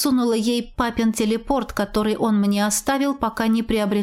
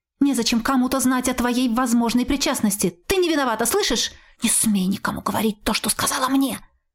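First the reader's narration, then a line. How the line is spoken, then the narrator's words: Whisper in ear. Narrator (Russian): Шепнула ей на ухо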